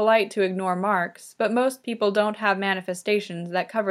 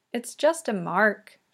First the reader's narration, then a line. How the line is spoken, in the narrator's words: she murmurs